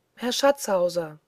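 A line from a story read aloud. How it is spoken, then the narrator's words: Loud call. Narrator (German): rief er laut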